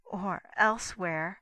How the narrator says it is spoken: she added bitterly

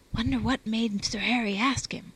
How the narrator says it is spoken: whispered Bouncy

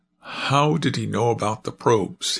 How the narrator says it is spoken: he exclaimed with exasperation

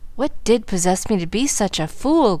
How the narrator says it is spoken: groaned Frank, repenting, all too late

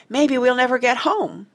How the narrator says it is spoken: cried Martha

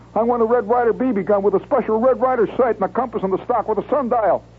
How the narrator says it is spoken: I shouted

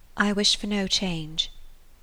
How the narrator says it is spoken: Marianne sighed and repeated

